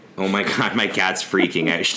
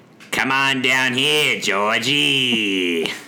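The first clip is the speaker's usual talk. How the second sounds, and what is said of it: Put-on character voice. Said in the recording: “She doesn't like when I do that voice.”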